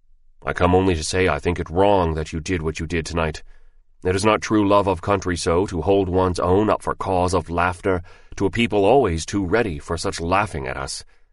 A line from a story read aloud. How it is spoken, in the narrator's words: He said very coldly